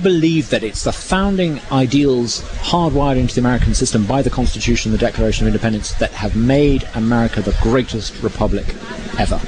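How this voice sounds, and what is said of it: Noticeable non-local accent. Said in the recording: “as you can probably tell by my accent, I've only been here for 6 months.”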